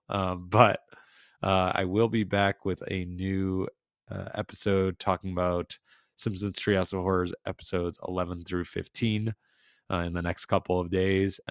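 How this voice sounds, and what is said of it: Rough, strained unwell voice. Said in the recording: “my voice sounds terrible”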